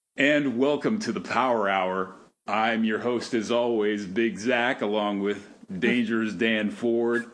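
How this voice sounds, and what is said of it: Altered sexier voice, no usual twang. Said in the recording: “you sound a little different. Like, your voice ... it's a sexier voice, but it doesn't sound exactly like you ... I left the twang behind”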